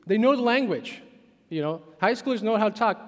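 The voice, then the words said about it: Czech accent in English. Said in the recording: “I have an accent, I'm from Czech Republic”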